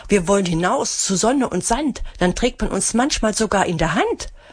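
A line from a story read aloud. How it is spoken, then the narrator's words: Excited calling. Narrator (German): rufen sie aufgeregt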